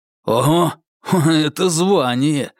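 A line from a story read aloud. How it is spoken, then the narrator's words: Envious snort. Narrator (Russian): завистливо хмыкнул четвертый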